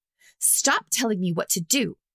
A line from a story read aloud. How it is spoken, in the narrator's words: Gisa snarled back